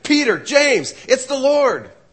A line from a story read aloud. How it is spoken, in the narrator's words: I shouted it